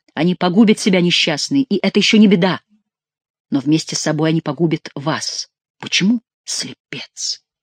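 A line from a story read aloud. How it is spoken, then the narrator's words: Whisper. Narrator (Russian): прошептала Екатерина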